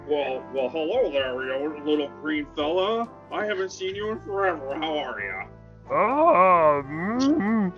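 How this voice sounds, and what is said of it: Character voice, old man. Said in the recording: “I forgot you do a Rex impression. ... You don't sound like Australia anymore.”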